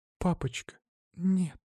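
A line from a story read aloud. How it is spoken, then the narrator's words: Whisper to herself. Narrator (Russian): прошептала она сама себе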